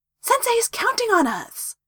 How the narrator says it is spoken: Naruto said excitedly

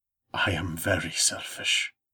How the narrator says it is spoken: said, his voice low and dangerous

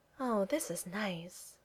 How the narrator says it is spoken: Kitty said with a contented little sigh

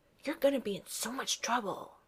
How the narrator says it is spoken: he hisses, not gloatingly, but like he's honestly warning Thor of impending danger

